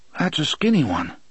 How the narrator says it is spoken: Eddie said sleepily from behind them

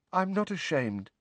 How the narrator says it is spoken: said Neville, very faintly

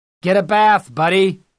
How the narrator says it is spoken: the driver of the pickup yelled

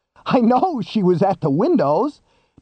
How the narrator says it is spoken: Daniels half laughed, half screamed at him

